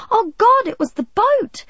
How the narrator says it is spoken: she wailed

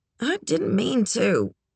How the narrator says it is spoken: Charlie mumbled

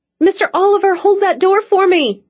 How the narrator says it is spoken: she cried frantically

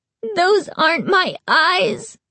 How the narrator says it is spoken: Carly Beth wailed

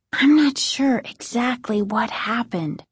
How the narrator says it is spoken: Margaret continued, still half-whispering

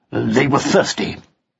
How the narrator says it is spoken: said Pug, gruffly

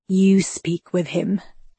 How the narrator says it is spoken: Seth whispered

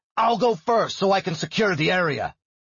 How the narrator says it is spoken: he shouted

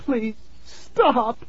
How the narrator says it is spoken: Tara cried

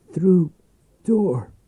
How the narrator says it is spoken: croaked

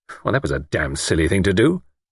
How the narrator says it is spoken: Luke grumbled

